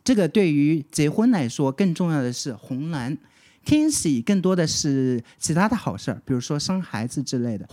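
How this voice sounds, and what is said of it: Slight regional accent. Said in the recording (Chinese): “我刚刚可能有一点点口音”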